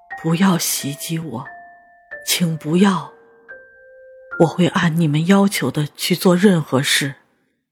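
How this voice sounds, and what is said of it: Trembling old man's voice. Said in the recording (Chinese): “小老头用颤抖的声音说”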